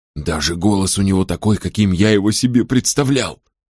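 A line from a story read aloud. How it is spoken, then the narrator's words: Whispered. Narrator (Russian): прошептал Финолео Мэгги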